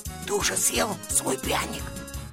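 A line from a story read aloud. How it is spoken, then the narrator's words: Whisper. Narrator (Russian): послышался шепот Шурика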